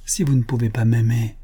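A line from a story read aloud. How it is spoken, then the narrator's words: Murmuring. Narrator (French): murmura-t-il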